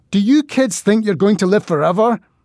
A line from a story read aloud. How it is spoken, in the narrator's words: I shouted at these innocents